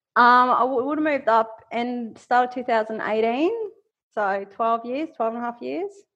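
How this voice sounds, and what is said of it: Queensland Australian accent. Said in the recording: “that Queensland accent coming out already”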